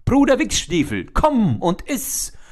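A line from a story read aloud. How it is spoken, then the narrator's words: Calling out. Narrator (German): rief er dem Jäger zu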